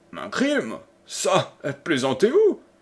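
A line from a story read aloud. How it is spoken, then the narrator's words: Exclaimed in astonishment. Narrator (French): s'écria le cavalier, stupéfait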